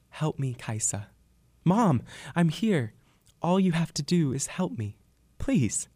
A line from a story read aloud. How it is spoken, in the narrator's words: The wind cried out in a distant, echoing voice